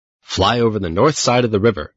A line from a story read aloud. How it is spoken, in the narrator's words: said Mr